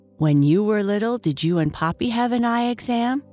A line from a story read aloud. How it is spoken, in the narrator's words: she asks